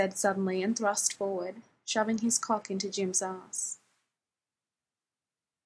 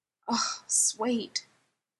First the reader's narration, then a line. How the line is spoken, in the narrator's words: Blair was moaning